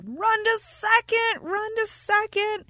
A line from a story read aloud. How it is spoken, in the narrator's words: Everyone yelled